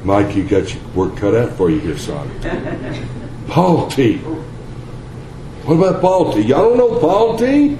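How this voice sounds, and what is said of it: Texas accent. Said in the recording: “Must be my Texas accent.”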